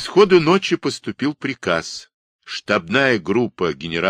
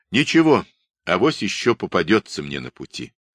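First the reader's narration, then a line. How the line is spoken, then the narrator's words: Calm, stern. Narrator (Russian): спокойно и сурово сказал Чумаков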